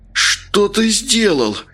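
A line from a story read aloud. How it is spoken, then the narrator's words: Moaning. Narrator (Russian): простонал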